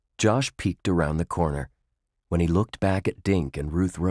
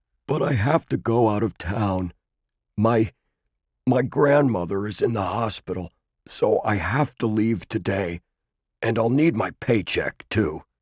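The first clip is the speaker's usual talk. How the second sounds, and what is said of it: Deep character voice. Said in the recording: “a deep voice responded”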